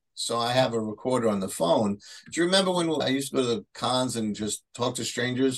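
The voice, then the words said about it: Bronx accent. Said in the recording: “my Bronx accent.”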